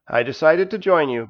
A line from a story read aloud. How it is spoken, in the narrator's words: replied